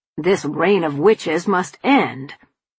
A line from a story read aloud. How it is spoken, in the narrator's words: Papa snapped